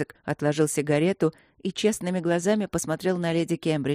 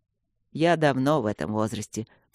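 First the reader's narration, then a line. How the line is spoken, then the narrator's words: Muttering. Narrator (Russian): пробурчал Люк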